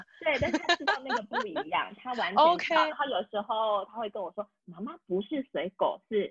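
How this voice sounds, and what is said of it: Usual voice. Nothing is said of it.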